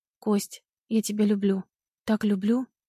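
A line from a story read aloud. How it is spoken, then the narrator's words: Hoarse, breathless voice. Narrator (Russian): Голос после секса не выровнялся, звучит хрипло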